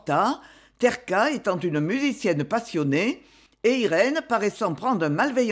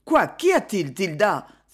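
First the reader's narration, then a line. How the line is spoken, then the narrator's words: Anxious exclamation. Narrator (French): s'écria anxieusement Myrto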